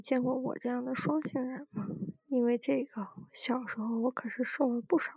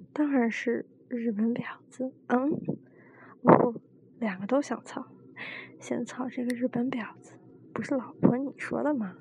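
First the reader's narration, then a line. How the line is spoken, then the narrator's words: Hurried. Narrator (Chinese): 老黑赶紧说道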